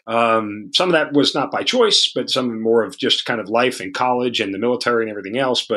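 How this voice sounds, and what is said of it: New York accent. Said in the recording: “you are from New York? Is that where that accent comes from?”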